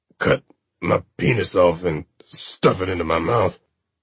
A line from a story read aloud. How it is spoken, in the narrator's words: he rasped with what air was left in his lungs